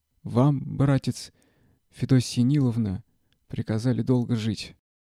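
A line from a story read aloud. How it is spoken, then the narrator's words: Trembling voice. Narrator (Russian): дрогнувшим голосом проговорил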